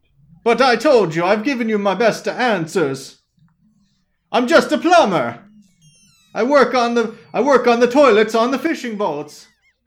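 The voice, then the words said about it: Exaggerated cliché put-on accent. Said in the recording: “the weird cliche accent all of a sudden. I feel like you only turn that on for the tourists”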